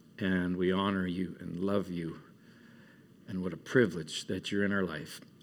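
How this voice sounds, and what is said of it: Emotional, moved voice. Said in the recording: “I'm a little bit emotional”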